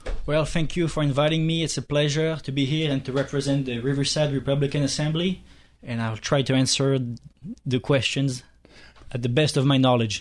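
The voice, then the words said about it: Speaks with a non-American accent. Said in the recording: “your accent and your speech. I mean, I love the accent. Do you find that gets you scores you any points here in the United States?”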